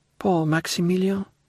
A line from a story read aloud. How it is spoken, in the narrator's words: murmured Valentine